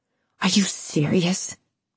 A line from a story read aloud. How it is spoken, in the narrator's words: Lucy hissed